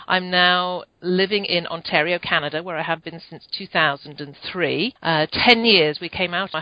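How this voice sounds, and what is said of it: British accent. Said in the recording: “Obviously, from my accent, I was from the UK.”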